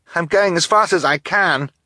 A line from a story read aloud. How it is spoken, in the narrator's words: Klaus cried